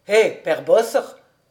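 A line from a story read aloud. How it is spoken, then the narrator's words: Shouted. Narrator (French): cria-t-il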